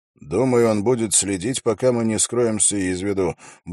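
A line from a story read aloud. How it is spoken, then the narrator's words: Grumble. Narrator (Russian): буркнул Холт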